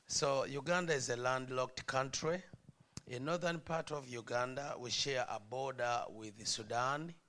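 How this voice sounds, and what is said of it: African accent, slow speech. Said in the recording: “I try to speak slow so people can understand me, because we speak different over there ... somehow I have that African accent.”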